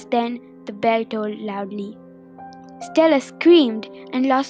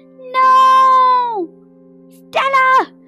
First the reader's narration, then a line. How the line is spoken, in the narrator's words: Stacy screamed